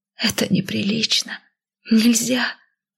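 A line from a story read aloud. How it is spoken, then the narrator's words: Whisper. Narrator (Russian): мой шепот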